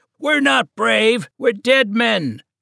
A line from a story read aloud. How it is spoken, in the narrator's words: shouted one of the rowers